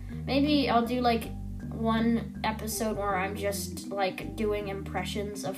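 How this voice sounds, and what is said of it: Usual voice. Nothing is said of it.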